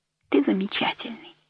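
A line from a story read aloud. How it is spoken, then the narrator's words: Whisper. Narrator (Russian): прошептала она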